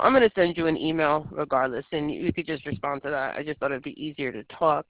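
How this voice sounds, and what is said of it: Sick-sounding voice. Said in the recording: “Sorry for my voice. I'm a little sick today.”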